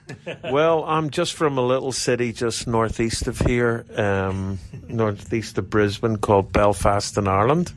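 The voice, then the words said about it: Northern Irish accent. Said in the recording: “I love your accent.”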